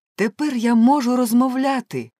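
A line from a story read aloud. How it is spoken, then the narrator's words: Exclaimed. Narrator (Ukrainian): вигукнула Еліза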